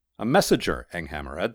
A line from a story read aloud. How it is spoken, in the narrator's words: said Mysterheart